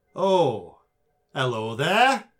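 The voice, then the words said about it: Character voice with different accent. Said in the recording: “It's a different accent. ... it's clearly a different accent this time.”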